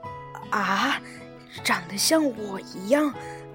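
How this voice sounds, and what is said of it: Soft, quiet muttering. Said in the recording (Chinese): “小声地说”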